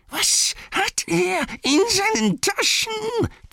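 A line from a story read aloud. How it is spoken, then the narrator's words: Hissing from behind. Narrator (German): zischte es hinter ihm her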